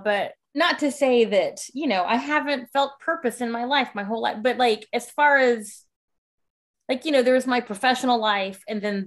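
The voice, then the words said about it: Teary, emotional voice. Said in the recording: “I know I'm a little teary now”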